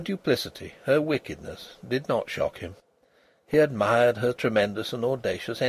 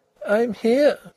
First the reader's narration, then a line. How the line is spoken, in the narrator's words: said Ruth, very plaintively